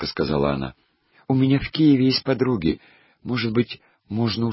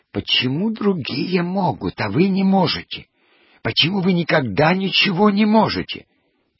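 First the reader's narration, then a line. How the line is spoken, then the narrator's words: Hissing voice. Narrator (Russian): актриса с собачкой говорила шипящим голосом Аверченкину антрепренеру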